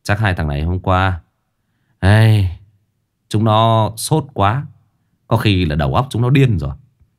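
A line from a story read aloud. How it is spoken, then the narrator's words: Sighing. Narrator (Vietnamese): hai anh lính thở dài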